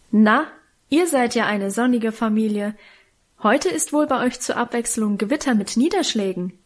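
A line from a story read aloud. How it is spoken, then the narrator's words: Cheerful call. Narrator (German): eine fröhliche Stimme rief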